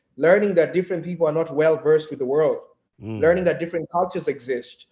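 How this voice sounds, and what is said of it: Kenyan accent. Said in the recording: “my accent ... I'm from Kenya.”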